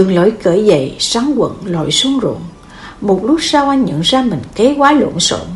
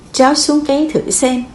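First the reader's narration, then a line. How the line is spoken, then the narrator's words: Smiling, gentle. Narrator (Vietnamese): Lão nông mỉm cười nói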